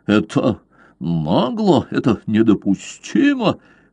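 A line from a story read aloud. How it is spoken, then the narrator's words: Furious stammering. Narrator (Russian): генерал так рассвирепел, что начал даже заикаться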